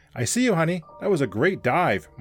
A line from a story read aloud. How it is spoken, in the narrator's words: Mark shouted